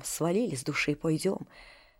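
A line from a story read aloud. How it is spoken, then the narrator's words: Hurried whisper. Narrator (Russian): Горкин торопливо говорит шепотком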